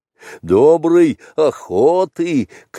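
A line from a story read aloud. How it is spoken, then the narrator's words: Shouting. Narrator (Russian): крикнул Балу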